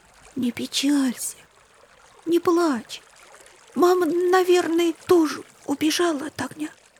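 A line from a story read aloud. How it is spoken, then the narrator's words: Quiet comforting. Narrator (Russian): тихо говорил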